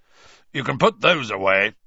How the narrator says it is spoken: he growled

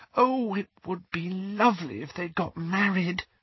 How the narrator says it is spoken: whispered Lily ecstatically

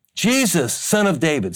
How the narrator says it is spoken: he began to shout

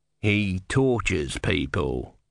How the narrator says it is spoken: he said coldly

